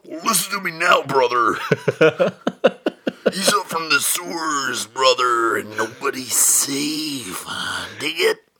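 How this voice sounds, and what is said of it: Gerard Butler as Macho Man Randy Savage. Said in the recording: “I think it's funnier in Gerard Butler's accent... I may have somewhat transplanted Gerard Butler into Macho Man Randy Savage, but I feel like that's how he's butchering the American accent.”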